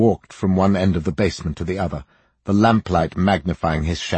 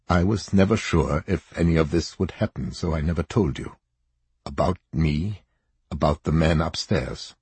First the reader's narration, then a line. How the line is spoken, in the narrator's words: he said quietly